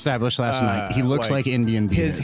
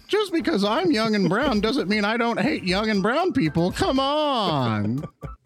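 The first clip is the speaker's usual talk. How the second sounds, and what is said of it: Vivek Ramaswamy impression, Seinfeld-like. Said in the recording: “Apparently, Vivek Ramaswamy is Jerry Seinfeld in my impersonation.”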